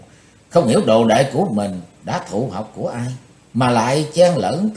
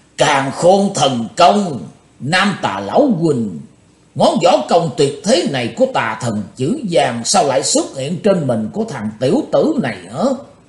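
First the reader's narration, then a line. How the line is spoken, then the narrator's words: Old demon roaring. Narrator (Vietnamese): Bắt đọc lão ma gầm tợ sống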